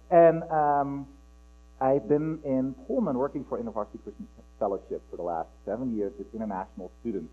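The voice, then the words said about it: Dutch accent. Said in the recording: “my accent, ... I'm originally from Holland”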